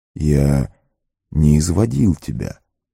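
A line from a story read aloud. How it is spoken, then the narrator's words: Calm mage. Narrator (Russian): спокойно сказал маг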